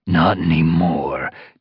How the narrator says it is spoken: Darkstripe snarled

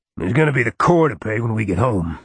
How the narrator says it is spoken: he growled

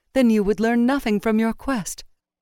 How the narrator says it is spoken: said in a voice still ringing with her laughter

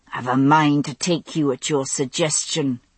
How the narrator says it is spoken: Randall had said through his teeth

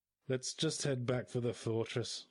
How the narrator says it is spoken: sighed the dwarf

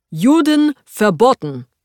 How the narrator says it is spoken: the man says, loudly, clearly one last time

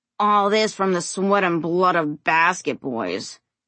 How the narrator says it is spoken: Robbie grumbled

